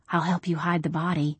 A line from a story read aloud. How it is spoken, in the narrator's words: I whispered